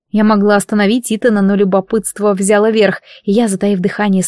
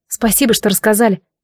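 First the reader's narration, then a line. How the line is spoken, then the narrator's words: Shocked mutter. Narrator (Russian): пробормотала я, все еще пребывая в шоке от услышанного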